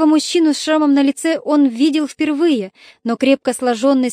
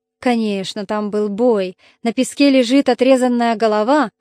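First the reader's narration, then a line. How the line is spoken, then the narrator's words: Snort. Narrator (Russian): хмыкнул Одиссей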